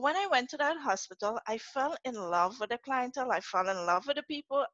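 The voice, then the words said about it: Trinidadian accent. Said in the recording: “I could detect my own accent. When people are walking by and you hear that Trini accent”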